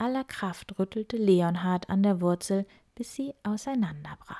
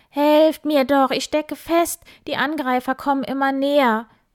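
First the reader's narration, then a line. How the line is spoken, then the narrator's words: Screamed. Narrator (German): Wildi schrie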